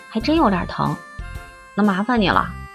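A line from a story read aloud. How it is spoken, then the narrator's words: Soft. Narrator (Chinese): 轻声说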